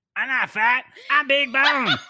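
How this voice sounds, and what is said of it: Cartman impression. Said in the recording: “your Cartman impression”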